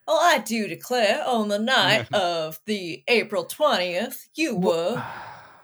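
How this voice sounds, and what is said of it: Put-on Southern drawl, stereotypical lawyer. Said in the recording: “Southern drawl ... stereotypical, like you know, like Southern lawyer ... the Southern drawl”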